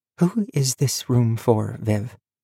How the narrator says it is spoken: she asked, quietly

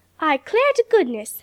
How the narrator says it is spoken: exclaimed the colored cook, with a laugh that made her shake all over,

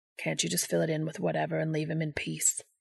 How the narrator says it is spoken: Balthazar mutters, whether on behalf of his own boredom or Castiel's discomfort

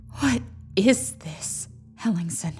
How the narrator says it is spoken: said Kendra, her voice hushed

